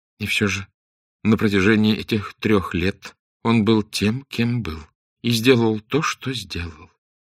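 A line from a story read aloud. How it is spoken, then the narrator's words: Sad, without contempt. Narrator (Russian): грустно сказала Арабелла, без всякого намека на презрение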